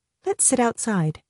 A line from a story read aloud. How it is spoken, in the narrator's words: Shoba said